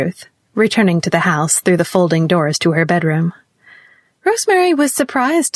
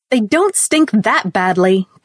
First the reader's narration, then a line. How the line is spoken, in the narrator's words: cried Ruth bitterly